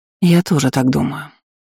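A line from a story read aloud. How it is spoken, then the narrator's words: Sigh. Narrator (Russian): вздохнула Дисси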